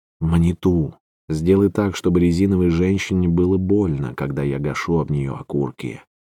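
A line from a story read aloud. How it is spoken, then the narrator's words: Frenzied whisper. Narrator (Russian): Оркский каган исступленно шептал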